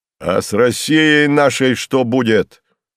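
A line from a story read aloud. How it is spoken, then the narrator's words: Impatient shout. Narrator (Russian): нетерпеливо выкрикнул с места казак, не успевший получить ответ от Пал Палыча в коридоре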